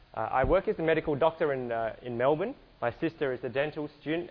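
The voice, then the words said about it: Australian English accent. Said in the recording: “my accent. I'm from Australia”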